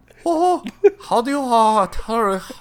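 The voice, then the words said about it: Mickey voice with mock Chinese accent. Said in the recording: “you always default to Mickey. And then you'll go to the Chinese accent ... Chinese Mickey is all I got”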